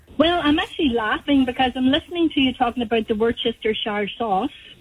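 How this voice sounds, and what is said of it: British accent. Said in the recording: “I'm from the UK. You can probably determine that from my accent.”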